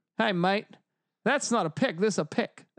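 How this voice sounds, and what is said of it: Terrible put-on Australian accent. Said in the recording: “Terrible Australian accent.”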